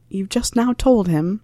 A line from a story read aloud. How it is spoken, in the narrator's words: asked Harry, lowering his voice, in confusion